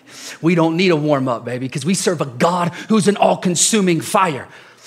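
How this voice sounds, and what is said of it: Loud, excited preaching shout. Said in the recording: “This is why I'm yelling. This is why I'm excited”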